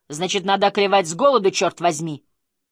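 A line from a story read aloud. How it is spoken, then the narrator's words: Shout. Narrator (Russian): Муж крикнул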